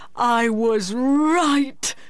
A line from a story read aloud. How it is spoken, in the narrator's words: he cried